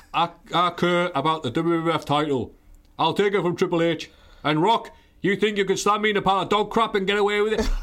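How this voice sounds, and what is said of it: British Bulldog impression, British cadence. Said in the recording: “I can't do the accent very well, but I can get the cadence. ... the British Bulldog”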